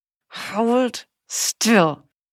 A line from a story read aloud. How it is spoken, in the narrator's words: he hissed, feeling his whole body trembling, partly from her, but mostly through his own nerves